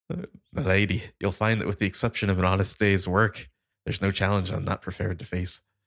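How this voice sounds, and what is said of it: Bad put-on Irish accent. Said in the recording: “when I attempt to do an Irish accent, I sound like Sean Bean in Patriot Games ... I would never claim to do a good accent, but I can do a bad one ... You need a bad accent. I'm your man.”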